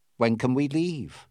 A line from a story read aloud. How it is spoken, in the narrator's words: asked Fogg calmly